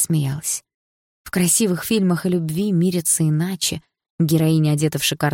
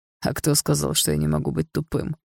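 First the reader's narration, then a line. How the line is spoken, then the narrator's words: Amused snort. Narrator (Russian): хмыкнул Дима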